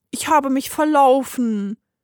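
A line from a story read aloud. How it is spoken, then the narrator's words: Small creature whimpering. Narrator (German): jammerte das kleine Wesen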